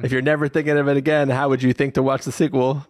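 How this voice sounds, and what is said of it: Put-on New Jersey accent. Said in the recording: “What accent did you just pick up? ... Did you just fly in from Jersey just there? ... immediately adopts a Jersey accent.”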